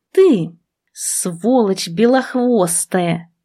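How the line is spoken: Hissed. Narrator (Russian): зашипела я

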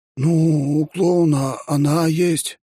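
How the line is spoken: Uncertain, cadet. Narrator (Russian): неуверенно сказал кадет

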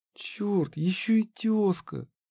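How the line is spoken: Sighing. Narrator (Russian): вздохнула Харми

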